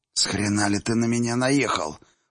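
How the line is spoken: Hissing schoolgirl. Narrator (Russian): прошипела гимназистка

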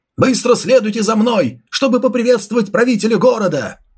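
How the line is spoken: Loud yelling. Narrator (Russian): Управляющий Лин, громко заорав, торопясь

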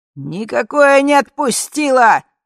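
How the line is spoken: Shouted. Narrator (Russian): закричал глава комитета

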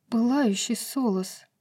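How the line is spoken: Breathless exhale. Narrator (Russian): выдохнула Брайс

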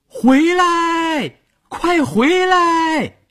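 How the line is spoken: Shouting to a distant boat. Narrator (Chinese): 朝着快到河中央的船喊

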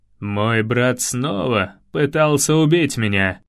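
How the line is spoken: Cold, king. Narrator (Russian): холодно сказал король

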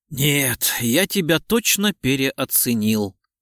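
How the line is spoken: Resigned sigh. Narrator (Russian): обреченно вздохнул Лев

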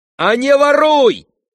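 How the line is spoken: Shouted, choking with rage. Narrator (Russian): крикнул Ганя, чуть не захлебываясь от злости

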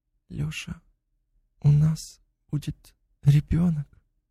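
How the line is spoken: Quietly said. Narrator (Russian): Полина негромко сказала

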